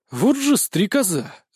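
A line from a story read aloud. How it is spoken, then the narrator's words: Exhaled, breathy. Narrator (Russian): выдохнул я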